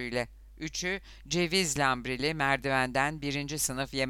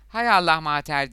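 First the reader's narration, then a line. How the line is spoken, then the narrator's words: Shouting. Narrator (Turkish): diye bağırdı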